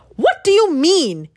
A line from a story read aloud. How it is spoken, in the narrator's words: shouted